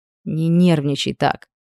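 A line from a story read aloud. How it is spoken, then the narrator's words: Quiet. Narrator (Russian): тихо проговорил Хит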